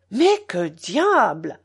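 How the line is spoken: Violent exclamation. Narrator (French): s'écria Philippe violemment

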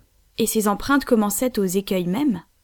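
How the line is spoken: Plain. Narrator (French): demanda le reporter

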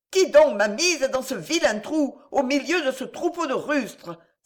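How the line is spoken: Exasperated woman's cry. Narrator (French): s'écria la femme exaspérée

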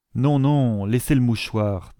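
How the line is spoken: Plain. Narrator (French): dit le pasteur

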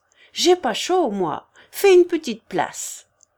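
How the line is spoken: Shouting. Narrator (French): cria Ambroise

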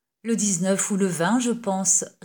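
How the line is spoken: Plain. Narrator (French): répondit le capitaine

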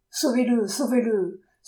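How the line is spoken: Desperate pleading. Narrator (French): suppliait la maîtresse adultère qui n'avait saisi que ce terme-là

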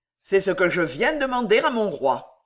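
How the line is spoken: Cold, audacious reply. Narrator (French): répondit froidement d'Étiol, qui pensait étourdir Louis XV par cette audacieuse réponse

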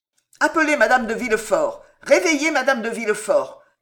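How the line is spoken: Shouting urgently. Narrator (French): cria le procureur du roi

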